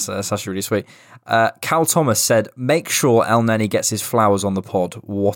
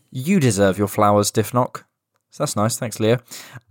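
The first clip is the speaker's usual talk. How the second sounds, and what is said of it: Sarcastic-sounding delivery. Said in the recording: “I sound really sarcastic.”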